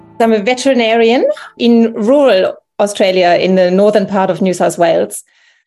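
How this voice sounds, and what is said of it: German accent in English. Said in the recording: “You can hear by my accent that I'm actually originally from Germany”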